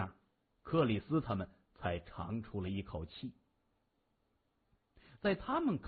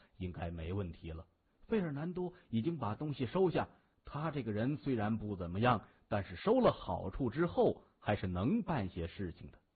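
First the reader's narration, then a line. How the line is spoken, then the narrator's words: Smiling. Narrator (Chinese): 谢文东笑着说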